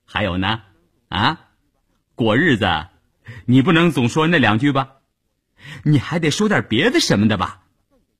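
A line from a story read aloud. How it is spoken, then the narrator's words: Smiling. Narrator (Chinese): 谭之林还是笑着说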